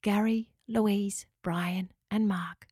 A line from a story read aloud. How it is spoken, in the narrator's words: Locker whispered